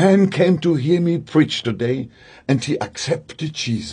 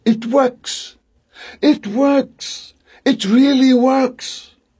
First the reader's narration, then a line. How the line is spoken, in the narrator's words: I cried